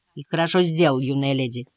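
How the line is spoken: Grumbling. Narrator (Russian): проворчал Паг

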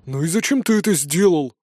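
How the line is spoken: Grumbled. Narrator (Russian): проворчал Нардис

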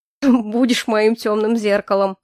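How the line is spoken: Chuckled. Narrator (Russian): хохотнул Ильфорте

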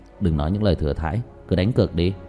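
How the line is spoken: With a cold smirk. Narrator (Vietnamese): ngẩng đầu nhìn hắn cười nhạt

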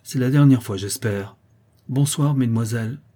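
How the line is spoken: Curt voice. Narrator (French): dit d'une voix brève

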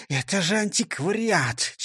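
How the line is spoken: Whisper after sneezing. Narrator (Russian): чихнув, прошептал Нисса Чих

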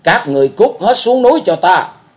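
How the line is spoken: Roaring. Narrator (Vietnamese): ma thượng ma gầm lên

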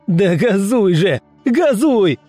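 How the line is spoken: Yelling at full volume. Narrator (Russian): заорал что есть мочи

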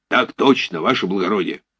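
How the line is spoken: Soldierly bark. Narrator (Russian): гаркнул по-солдатски

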